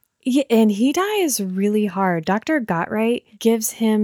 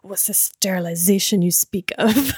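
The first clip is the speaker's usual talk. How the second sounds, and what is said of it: Poor put-on German accent. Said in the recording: “nobody can do a German accent”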